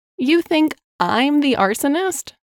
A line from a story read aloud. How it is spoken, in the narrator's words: she laughed